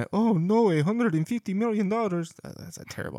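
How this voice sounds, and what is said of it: Unidentified put-on accent. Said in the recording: “I don't know what accent that was”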